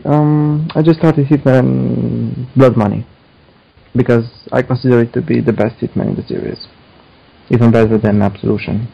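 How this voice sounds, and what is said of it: Romanian accent. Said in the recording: “I'm also detecting a little bit of an accent. ... Romania. ... I think I have a Niko Bellic-style accent.”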